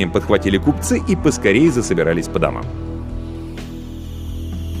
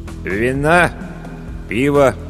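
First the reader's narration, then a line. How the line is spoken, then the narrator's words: Glum question, innkeeper. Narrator (Russian): уныло осведомился корчмарь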